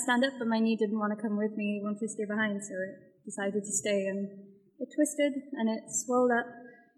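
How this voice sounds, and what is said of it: Welsh accent. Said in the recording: “you have like a British accent. ... I'm from Wales. ... I'm Welsh.”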